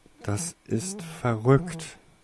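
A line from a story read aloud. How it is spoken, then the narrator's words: Stammering. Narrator (German): stammelte Toriesa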